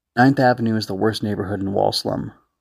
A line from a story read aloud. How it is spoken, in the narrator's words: Luguman said